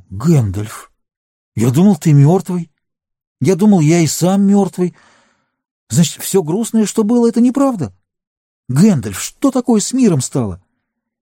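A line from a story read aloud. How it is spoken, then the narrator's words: Hoarse with emotion. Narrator (Russian): он сказал сиплым от волнения голосом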